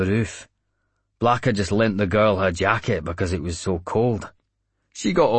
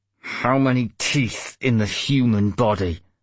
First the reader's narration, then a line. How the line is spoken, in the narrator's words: I spat